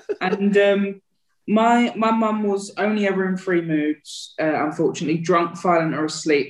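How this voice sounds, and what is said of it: Essex accent. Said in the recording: “the Essex accent”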